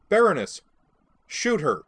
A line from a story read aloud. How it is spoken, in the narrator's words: she snapped